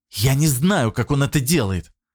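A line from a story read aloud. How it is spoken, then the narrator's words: Irritated hiss. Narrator (Russian): раздраженно прошипела Потоцкая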